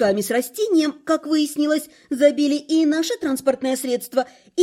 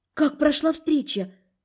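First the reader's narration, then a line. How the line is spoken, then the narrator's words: Breathless exhale. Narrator (Russian): выдохнула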